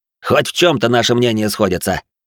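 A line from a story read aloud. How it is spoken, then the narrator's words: Snorting chuckle. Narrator (Russian): хмыкнул Семенов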